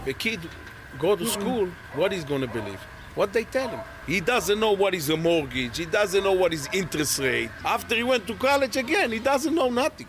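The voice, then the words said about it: Speaks with a distinctive accent. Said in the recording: “I love this accent. This is one of my favorite accents to exist. I don't know what it is about it, but every time I hear an accent like this, I'm at ease.”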